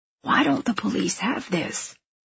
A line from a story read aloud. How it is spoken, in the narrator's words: Alex mutters